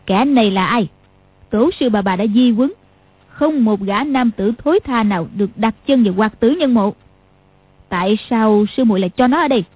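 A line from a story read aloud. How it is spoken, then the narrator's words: Cold question. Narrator (Vietnamese): Lý Mạc Sầu lạnh lùng hỏi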